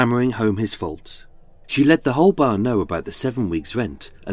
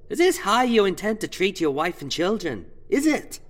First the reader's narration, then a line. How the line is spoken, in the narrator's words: Shaming in public this bad dad and shitty husband in front of his cackling pals, Mary Ann shouted